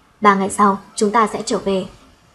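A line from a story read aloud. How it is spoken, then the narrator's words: Cold. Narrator (Vietnamese): hắn lạnh lùng nói thêm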